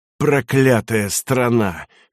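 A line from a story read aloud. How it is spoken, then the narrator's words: Hoarse soldiers. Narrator (Russian): хрипели фельдфебели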